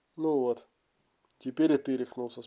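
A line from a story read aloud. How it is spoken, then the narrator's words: Calm. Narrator (Russian): спокойно отреагировал тот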